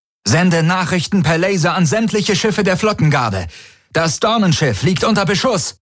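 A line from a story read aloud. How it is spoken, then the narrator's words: Called out. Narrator (German): rief Tari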